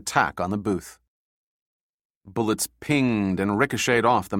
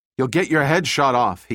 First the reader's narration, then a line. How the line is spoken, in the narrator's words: he yelled over the sound of gunfire